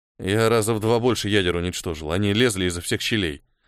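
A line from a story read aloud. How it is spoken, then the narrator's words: Grumbling mutter. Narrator (Russian): буркнул Ниэль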